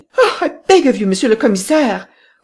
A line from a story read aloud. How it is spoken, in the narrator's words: cried Madame Renaud